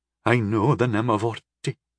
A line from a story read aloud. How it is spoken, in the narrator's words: Andra gasped